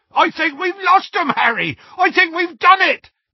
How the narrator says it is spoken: yelled Hagrid

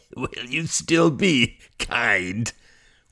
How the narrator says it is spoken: wheezed the director behind him, laughing

